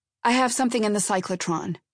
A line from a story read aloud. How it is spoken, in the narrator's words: said irritably